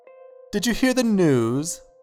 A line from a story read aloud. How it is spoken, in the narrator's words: the slight man chirped in an overly cheery way